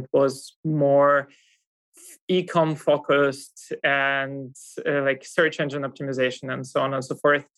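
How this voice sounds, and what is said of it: Russian accent. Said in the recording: “I come from Russia. You kind of might hear that from my accent as well”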